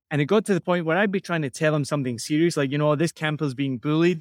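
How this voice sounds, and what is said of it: Soft Scottish accent. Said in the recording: “my accent is not strong ... you've got a really soft accent”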